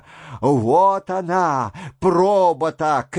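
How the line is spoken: Shouted. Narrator (Russian): крикнул голос

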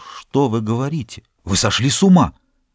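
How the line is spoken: Whisper. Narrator (Russian): Он прошептал

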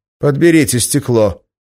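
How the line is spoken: Sharp. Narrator (Russian): резко сказал он

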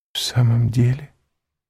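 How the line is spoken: Whisper. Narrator (Russian): прошептала Валентина

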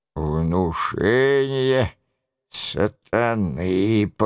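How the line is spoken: Hoarse, wounded man. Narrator (Russian): повторил раненый сиплым голосом

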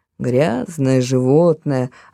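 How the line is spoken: Grumbling. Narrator (Russian): опять проворчала она

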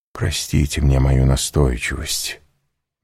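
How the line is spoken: Soft, gentle. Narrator (Russian): мягко продолжал Вильфор

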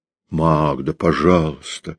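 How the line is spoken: Drawn-out plea. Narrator (Russian): протянул Кречмар

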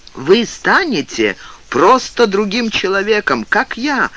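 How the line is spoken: Shouting. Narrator (Russian): кричал Пнин

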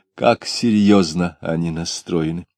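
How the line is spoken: Pleased, with deep sigh. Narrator (Russian): Обрадованный этой сценой, Самгин сказал, глубоко вздохнув

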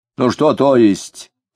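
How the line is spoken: Angry reply. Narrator (Russian): сердито откликнулся Дронов

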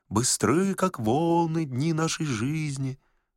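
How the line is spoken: Soft uneasy singing. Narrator (Russian): томимые неясным предчувствием, они тихонько затянули

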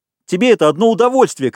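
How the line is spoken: Shouting. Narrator (Russian): кричал Ральф

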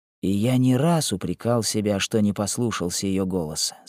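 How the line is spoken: Calm. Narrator (Russian): спокойно отвечал Диксмир

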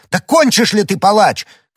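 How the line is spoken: Shouted. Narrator (Russian): крикнул Д'Артаньян

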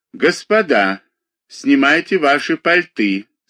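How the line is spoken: Stern footman. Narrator (Russian): сказал строго лакей

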